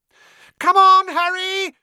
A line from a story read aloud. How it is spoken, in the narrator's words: Hermione screamed